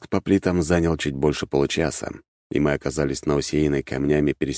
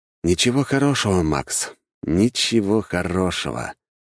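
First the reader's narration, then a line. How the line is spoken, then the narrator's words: Sighing. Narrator (Russian): вздохнул я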